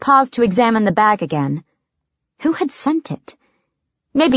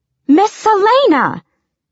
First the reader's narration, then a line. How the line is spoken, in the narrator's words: Philippa exclaimed from the doorway, gaping